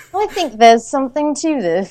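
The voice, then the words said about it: Bad put-on English accent. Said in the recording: “That's the worst English accent.”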